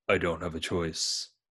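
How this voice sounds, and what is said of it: Bad Murtaugh impression. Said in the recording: “Your Murtaugh impression is just awful”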